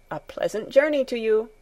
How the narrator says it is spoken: Herr Sesemann called out once more

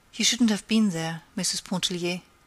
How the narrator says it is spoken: said

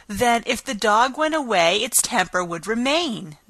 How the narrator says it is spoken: the Queen exclaimed triumphantly

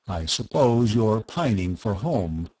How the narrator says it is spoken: Verengil said kindly

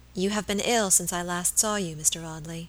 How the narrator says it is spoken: she said in a low voice that had the same melodious sadness as the notes of the old organ under her touch

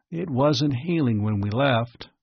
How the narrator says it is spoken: Bart said wearily

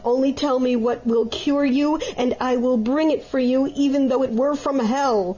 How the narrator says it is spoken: cried the good Vitasco, for he loved his mother well

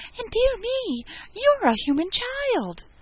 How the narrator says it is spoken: it cried out in a voice of delight

